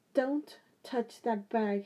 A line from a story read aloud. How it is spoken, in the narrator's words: he said sharply